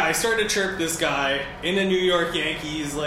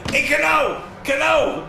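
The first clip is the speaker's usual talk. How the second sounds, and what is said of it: Put-on New York accent, yelling. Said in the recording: “like in a New York accent.”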